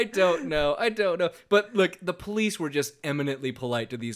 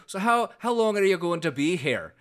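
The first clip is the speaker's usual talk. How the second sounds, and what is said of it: Put-on Scottish accent, not great. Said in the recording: “my Scottish accent is just about possible ... Mine's not great.”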